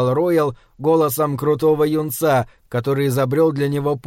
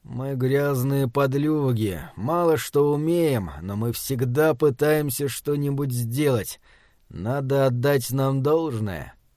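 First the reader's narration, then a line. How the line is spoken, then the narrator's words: Muttering. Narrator (Russian): пробормотал он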